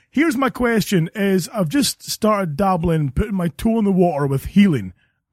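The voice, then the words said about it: Caller's noticeable accent. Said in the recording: “I love his accent”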